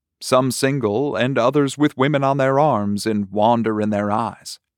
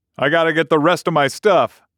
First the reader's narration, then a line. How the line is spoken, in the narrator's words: Stucky shouted